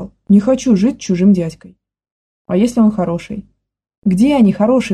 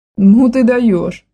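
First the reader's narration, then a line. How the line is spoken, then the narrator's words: Loud laughter. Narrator (Russian): расхохоталась Саша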